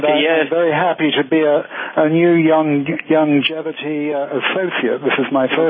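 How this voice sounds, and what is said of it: Slight British accent. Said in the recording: “you have a little bit of a British accent there.”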